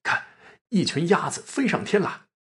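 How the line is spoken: Hurried alarmed call. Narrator (Chinese): 惊疑间又不敢追问，急忙呼叫说

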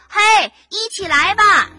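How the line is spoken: Shouted in unison. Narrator (Chinese): 大家齐声的喊道

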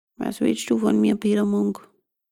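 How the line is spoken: Dull hollow voice. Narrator (German): fragte es mit dumpfer Stimme

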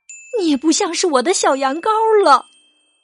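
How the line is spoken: Mother, calling out. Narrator (Chinese): 他的妈妈也叫道

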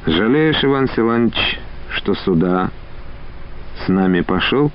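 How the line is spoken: Sudden quiet question. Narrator (Russian): спросил негромко Олейников вдруг

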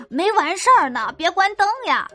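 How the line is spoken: Shouting. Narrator (Chinese): 又喊道

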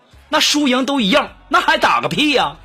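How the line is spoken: Angry roar. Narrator (Chinese): 我就急了……我就怒吼

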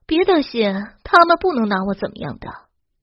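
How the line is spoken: Calm, faint smile. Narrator (Chinese): 何静淡淡一笑，说道

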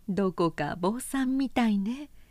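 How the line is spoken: Laughing, older sister. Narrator (Japanese): と姉は言って笑った

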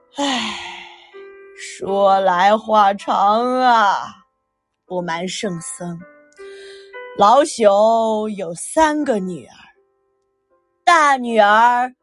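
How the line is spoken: Sighing. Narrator (Chinese): 高太公叹了口气

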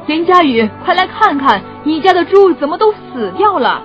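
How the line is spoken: Old man's urgent shout. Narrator (Chinese): 老人连忙大喊

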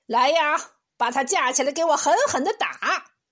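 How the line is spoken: Official's commanding shout. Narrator (Chinese): 县官……大喊一声

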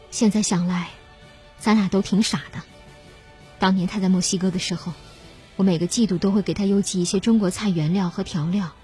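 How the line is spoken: Calm, flat. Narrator (Chinese): 何云淡淡的说

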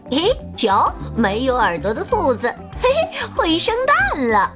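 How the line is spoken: Mocking laughter. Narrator (Chinese): 其他的兔子都笑他说

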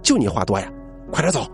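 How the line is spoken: Shouting. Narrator (Chinese): 任老师回头就冲我喊

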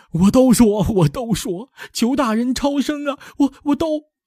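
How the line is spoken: Crying. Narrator (Chinese): 哭泣的说

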